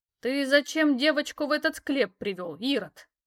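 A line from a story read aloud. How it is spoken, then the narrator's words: Indignant hiss. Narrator (Russian): возмущенно прошипела она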